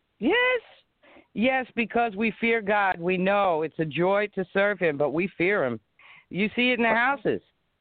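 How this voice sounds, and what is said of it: East Coast American accent. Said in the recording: “I can tell by your accent you're from the East Coast”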